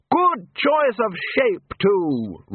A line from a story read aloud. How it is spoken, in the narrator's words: Ridcully continued loudly